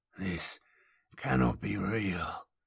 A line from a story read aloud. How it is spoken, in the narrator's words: he whispered